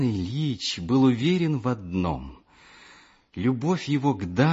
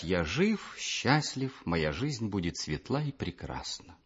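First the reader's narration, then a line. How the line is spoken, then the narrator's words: Forced calm. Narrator (Russian): Каждый раз приходилось делать усилия, чтобы спокойно сказать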